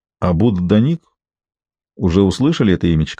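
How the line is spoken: Gentle, smiling. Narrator (Russian): ласково улыбнулся он

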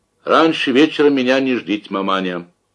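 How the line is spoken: Formal warning tone. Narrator (Russian): официальным тоном предупредил Разметнов

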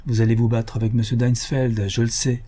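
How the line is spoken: Plain. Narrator (French): lui dit-elle

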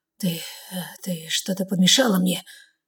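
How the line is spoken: Labored mumbling. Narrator (Russian): Бормочу, каждое слово дается мне с трудом

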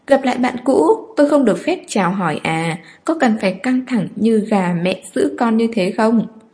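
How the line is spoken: Provocative laugh. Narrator (Vietnamese): Người đó bật cười vẻ khiêu khích

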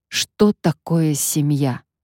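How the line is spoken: Plain. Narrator (Russian): спросил я ее

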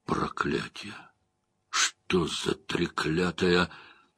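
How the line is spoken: Whispered. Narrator (Russian): Уна прошептал

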